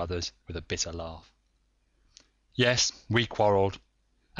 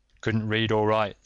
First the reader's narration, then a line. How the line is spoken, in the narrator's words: said Cruthers